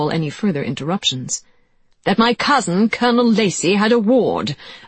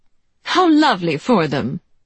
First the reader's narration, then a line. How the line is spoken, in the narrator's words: said Anne brightly